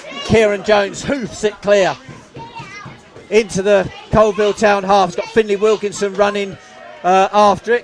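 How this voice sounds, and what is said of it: Strained, fading commentator voice. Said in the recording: “I'm losing my voice. And a lot of people are going to be glad I'm losing my voice. ... I've broken some eardrums today.”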